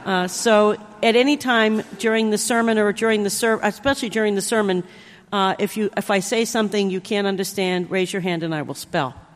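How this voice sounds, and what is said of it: New Jersey accent. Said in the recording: “makes my New Jersey accent come out that much worse”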